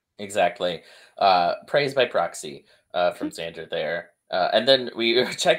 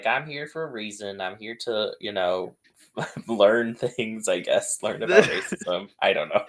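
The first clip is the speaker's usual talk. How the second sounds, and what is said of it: Impression of Heather. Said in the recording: “Your Heather impression is incredible.”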